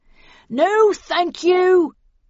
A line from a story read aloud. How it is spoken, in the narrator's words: yelled Snell